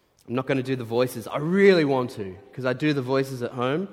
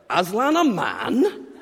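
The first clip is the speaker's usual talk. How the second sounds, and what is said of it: Put-on Northern English Yorkshire accent. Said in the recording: “With this beaver, I like to do a Northern English accent. Maybe a Yorkshire accent.”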